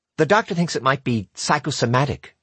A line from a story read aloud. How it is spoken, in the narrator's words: she said